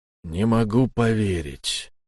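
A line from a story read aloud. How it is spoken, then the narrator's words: Dejected. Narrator (Russian): уныло проговорил человек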